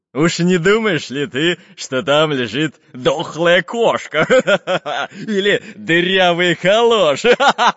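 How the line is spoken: Laughing. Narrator (Russian): Засмеялся главарь шайки

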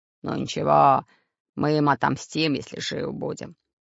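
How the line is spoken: Growling. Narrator (Russian): прорычал Бульбуль

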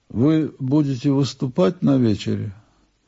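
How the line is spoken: Slightly muffled voice. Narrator (Russian): Немного глухим голосом Блок спрашивает меня

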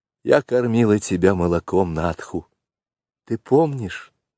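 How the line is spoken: Timid question. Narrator (Russian): робко спросила Мессуа

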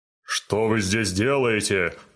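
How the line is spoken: Giant's growl. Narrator (Russian): прорычал великан

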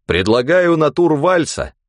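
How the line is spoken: Loud statement. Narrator (Russian): громко сказал

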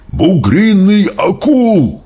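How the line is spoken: Shout. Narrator (Russian): прокричал он

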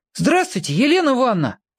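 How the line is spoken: Shouting. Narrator (Russian): крикнул я

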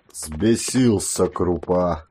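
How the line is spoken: Grumbling. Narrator (Russian): ворчал Сысой

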